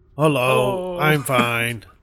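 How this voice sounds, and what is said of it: Ogre character voice. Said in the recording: “talk like an ogre ... How do ogres talk? ... just like he did”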